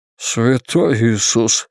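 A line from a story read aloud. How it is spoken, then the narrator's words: Breathed exclamation. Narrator (Russian): выдохнул Бейкер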